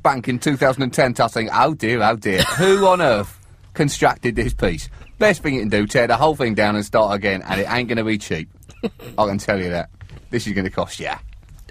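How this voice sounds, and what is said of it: Put-on accent, well performed. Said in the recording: “Super accent work... That is National Youth Theatre standard.”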